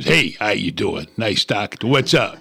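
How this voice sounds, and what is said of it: New York Bronx-style accent. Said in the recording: “they sound like they were raised in New York. They had the accent. ... They all sound like they're raised in the Bronx or something”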